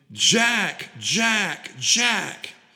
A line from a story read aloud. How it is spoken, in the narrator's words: They were shouting